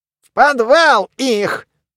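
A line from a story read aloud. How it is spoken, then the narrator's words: Loud declaration. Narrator (Russian): громко заявил Мумий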